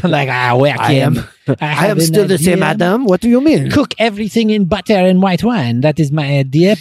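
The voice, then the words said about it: Exaggerated put-on French accent. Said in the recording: “crazy French accent”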